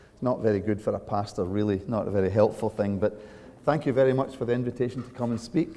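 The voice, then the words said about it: Strong regional accent. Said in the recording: “so that you get familiar with the accent, because quite frequently people do not understand what I'm saying”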